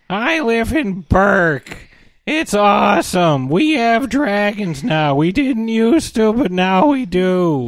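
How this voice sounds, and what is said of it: Whiny squeaky nasal Hiccup voice. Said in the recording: “he's whiny as hell. Like, it's like he's trying to do an impression of the squeaky voice teen on The Simpsons ... He's a little more nasally, but yes, he sounds like that.”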